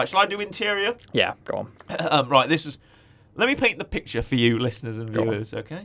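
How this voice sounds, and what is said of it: Usual voice. Nothing is said of it.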